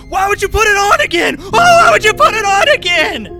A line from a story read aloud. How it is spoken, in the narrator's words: I'm yelling